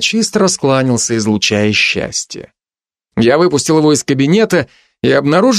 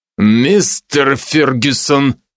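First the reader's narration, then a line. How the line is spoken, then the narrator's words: Growled. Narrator (Russian): рыкнул я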